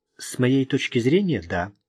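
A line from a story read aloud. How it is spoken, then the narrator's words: Calm reply. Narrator (Russian): спокойно ответила она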